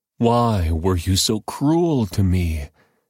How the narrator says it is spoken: Jacob moaned

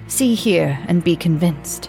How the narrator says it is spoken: he exclaimed eagerly

